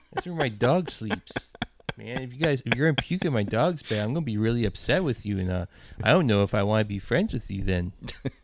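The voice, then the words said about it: Imitates another person's voice. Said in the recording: “My impression of a guy from back in the day when I was doing the DIY punk scene shit. He talked like this”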